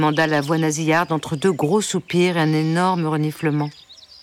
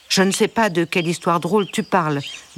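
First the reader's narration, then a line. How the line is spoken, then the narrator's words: Curt, tearful. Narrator (French): dit sèchement le canard en essuyant quelques larmes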